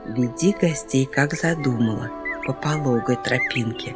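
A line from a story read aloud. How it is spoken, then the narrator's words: Whispered in ear. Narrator (Russian): шепнула бабушка лиса на ушку внучке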